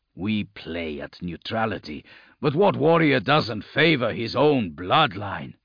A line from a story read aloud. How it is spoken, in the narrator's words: Kadir grunted